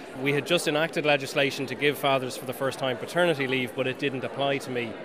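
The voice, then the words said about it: Irish-accented English. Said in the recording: “I'm Irish, you can probably hear from the accent.”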